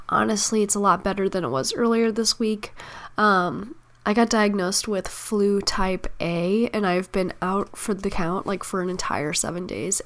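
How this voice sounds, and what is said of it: Sick, nearly lost voice. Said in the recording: “I am sick. My voice is just about gone.”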